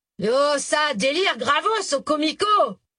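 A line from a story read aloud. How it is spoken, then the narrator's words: Shouting over loud music. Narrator (French): cria-t-il pour couvrir les violons et les cors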